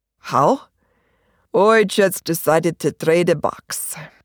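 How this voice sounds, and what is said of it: Strongly accented character voice. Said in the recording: “his accent is also very much pronounced”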